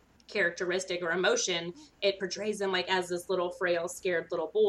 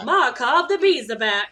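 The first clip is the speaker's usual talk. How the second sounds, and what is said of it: Put-on transatlantic accent. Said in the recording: “What was that voice? ... It's my transatlantic accent.”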